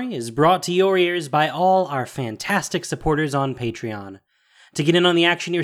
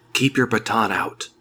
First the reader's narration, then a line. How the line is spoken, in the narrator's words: he whispered